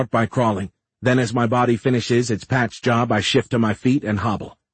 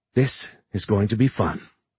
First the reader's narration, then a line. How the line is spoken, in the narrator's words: she whispers